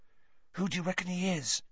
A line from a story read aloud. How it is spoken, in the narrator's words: Ron hissed